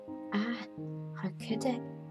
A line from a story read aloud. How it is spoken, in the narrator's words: he murmured